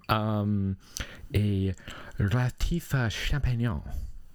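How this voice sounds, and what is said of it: Thick put-on French accent. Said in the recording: “Can you say that with a thicker French accent, please”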